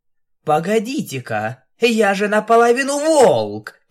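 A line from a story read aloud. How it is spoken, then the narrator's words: Triumphant exclamation. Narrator (Russian): триумфально воскликнула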